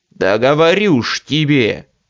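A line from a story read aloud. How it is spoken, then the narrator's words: Growling. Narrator (Russian): рычал очкарик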